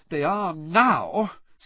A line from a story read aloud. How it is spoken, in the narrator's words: said Hermione, in an exasperated voice